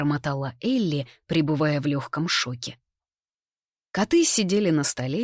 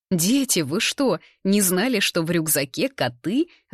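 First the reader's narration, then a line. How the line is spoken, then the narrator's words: Old man laughing. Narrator (Russian): рассмеялся старик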